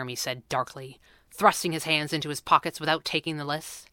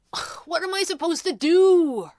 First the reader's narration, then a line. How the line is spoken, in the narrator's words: wailed